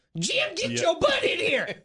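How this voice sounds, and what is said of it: Shouted North Carolina Southern accent. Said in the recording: “Quite the accent ... she's from North Carolina”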